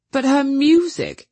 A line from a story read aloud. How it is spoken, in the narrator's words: he exclaimed